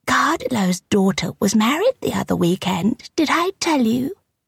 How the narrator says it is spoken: Miss White said in her tiny, kitteny voice

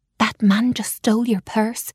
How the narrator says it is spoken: I whispered

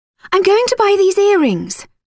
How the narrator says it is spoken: Lily called out

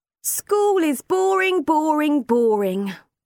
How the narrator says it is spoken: complained Kai loudly

